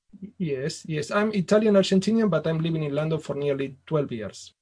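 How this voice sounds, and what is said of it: Italian-sounding accent. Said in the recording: “not Italy, as your accent might suggest”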